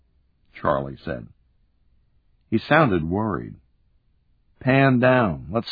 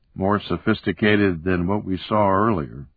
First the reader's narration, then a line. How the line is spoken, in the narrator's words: I said